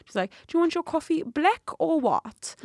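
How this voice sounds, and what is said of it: Imitated South African accent. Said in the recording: “South African accent, South African dialect ... I can say a very, very few minimal words in accurate accent.”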